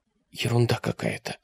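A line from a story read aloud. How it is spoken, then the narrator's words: Whisper. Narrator (Russian): прошептала Алиса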